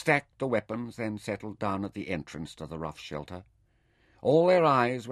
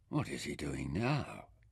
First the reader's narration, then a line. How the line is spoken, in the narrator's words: Hildo asked in an awed tone